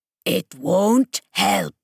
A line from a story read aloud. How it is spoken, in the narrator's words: barked